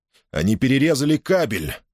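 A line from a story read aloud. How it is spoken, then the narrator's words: Alarmed exclamation. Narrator (Russian): воскликнул Чаттен, охваченный внезапной тревогой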